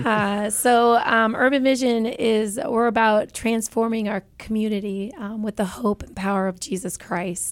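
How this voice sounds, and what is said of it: Strained, unwell-sounding voice. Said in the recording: “Excuse my voice because I'm struggling from that.”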